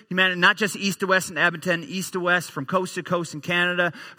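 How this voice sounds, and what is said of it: Slight Newfoundland accent, dropped H's. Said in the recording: “I grew up in the easternmost province in our country, a little province called Newfoundland ... a little bit of an accent in there somewhere. I drop my H's and put them on when I get excited.”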